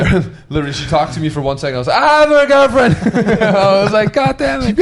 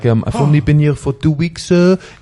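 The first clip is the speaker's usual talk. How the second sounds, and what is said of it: Put-on French accent. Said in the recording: “You got a nice French impersonation there. I like that. ... Yeah, the French accent.”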